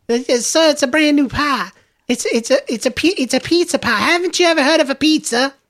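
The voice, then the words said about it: Female Southern girl voice. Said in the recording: “I'm being the female for some reason ... It's a good accent. I'll do a Southern girl”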